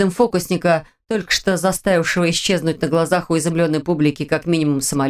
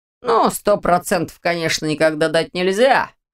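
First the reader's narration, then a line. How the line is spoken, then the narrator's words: Wry snort. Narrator (Russian): хмыкнул Ваня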